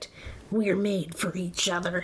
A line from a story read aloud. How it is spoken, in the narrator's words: he growled